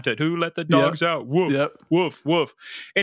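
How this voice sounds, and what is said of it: Bad imitation of song and barking. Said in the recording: “I did a bad imitation of that”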